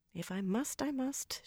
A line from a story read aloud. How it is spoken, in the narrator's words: she muttered, only half under her breath